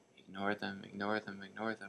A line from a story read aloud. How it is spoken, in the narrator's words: under her breath